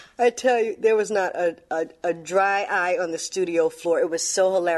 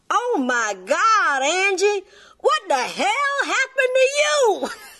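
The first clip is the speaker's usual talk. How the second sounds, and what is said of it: Imitated Southern twang drawl. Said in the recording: “in that southern twang drawl”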